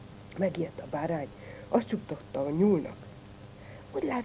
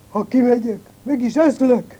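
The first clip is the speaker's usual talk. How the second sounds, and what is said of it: Fox imitating a wolf's voice. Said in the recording (Hungarian): “A róka újból a farkas hangját utánozta, úgy felelte a kunyhóból.”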